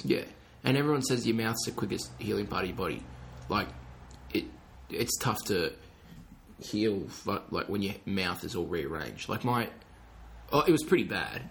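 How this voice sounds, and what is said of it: Strained, altered speech from injured mouth. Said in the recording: “That's why I'm struggling to talk. If I sound a bit different, it's because my mouth's like been rearranged”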